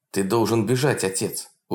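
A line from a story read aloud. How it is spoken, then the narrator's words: Irritated urging. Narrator (Russian): уже раздраженно уговаривал Полунин старика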